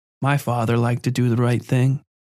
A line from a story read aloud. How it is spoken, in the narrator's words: Patty said quickly